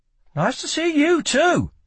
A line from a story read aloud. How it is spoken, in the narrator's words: she snapped